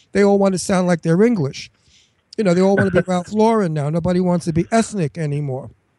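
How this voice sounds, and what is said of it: Brooklyn accent. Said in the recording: “Why don't you lose your Brooklyn accent? You're so Brooklyn.”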